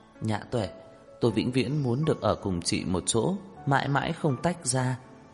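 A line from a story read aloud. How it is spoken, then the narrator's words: Sobbing, choked up. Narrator (Vietnamese): Đường Khả Hinh nức nở, nghẹn ngào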